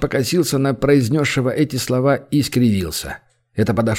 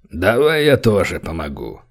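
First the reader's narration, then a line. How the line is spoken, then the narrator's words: Deep bass voice. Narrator (Russian): пробасили рядом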